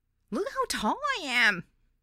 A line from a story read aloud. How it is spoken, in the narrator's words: squeaked with delight